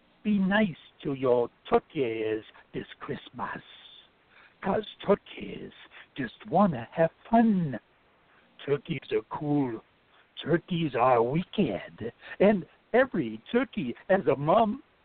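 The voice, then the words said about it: Put-on Jamaican accent. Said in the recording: “read it in your best Jamaican accent.”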